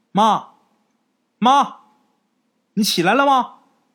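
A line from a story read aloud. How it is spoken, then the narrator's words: Calling out repeatedly. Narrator (Chinese): 刘哲叫了几声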